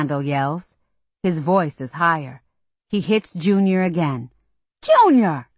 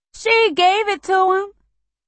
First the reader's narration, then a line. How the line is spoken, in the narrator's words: Junior wails